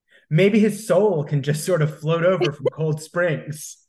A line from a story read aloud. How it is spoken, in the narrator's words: Kara said, giggling